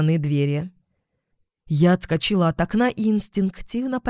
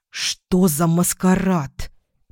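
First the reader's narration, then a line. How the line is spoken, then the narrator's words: Hissing. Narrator (Russian): прошипела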